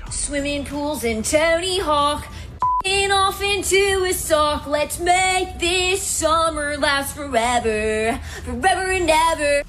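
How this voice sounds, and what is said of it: Mock emo pop-punk singing voice. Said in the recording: “my impression of every emo pop punk song from the early 2000s”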